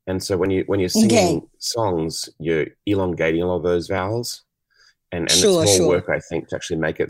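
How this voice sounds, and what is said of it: Australian accent. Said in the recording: “accent... He sounds like the boys from For King and Country... Because they're from my country... I just love that accent”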